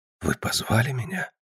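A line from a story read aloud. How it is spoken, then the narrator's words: Whisper. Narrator (Russian): прошептал я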